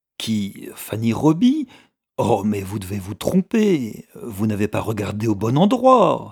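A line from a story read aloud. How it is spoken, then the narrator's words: Exclaiming. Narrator (French): s'exclama Mrs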